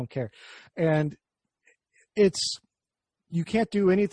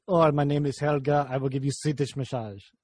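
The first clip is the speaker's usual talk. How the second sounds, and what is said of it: Deliberately bad Swedish accent. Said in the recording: “That's a terrible Swedish accent”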